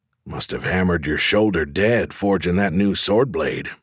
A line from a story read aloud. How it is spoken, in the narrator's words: I muttered